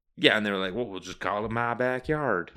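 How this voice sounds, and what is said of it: Put-on Southern US accent. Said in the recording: “This is my southern accent.”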